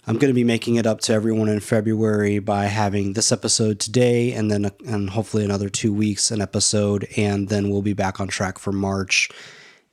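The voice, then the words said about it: Sick-sounding voice. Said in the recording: “If you can't tell by my voice, I have been and continue to be sick.”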